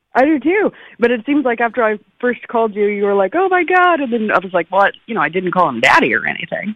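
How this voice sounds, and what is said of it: Minnesota or Canadian-sounding accent. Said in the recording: “You sound Canadian. ... You do sound Minnesota Canadian. ... you definitely sound Canadian. ... You don't sound Oklahoma Homa”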